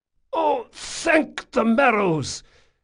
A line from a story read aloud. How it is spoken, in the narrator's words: choked out the black-clad man